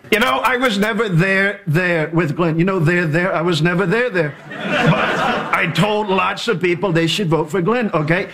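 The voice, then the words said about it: Imitates another person's voice. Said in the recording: “The Trump impersonation”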